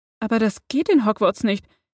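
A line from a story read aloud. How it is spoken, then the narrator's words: Stammering. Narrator (German): antwortete sie stotternd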